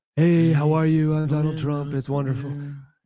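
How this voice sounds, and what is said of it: Donald Trump impression. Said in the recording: “I don't want to do a bad Trump impression, but he was like this”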